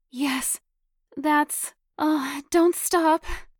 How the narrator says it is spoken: Beth gasped out loud

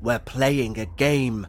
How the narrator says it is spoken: growled

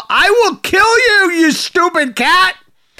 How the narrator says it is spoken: So she then proceeded to shout

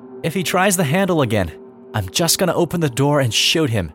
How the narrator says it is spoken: My mom loudly said

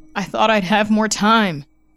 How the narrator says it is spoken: he cried out in the church

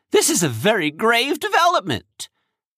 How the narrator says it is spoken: he said urgently

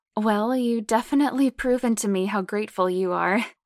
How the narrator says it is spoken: Lainey chuckles

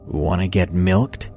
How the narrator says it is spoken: said in his usual creepy monotone voice

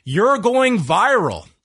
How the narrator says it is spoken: yells

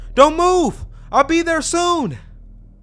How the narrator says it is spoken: he yelled

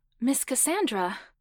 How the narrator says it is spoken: Beth gasped

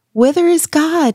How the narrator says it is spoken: he cried

